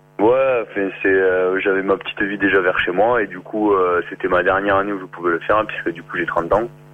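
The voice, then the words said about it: Southern French regional accent. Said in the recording (French): “d'où nous vient ce petit accent que tu as Toulouse ... ton petit accent”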